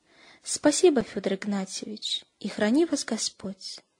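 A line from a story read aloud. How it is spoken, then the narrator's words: Warm farewell. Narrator (Russian): ласково прощался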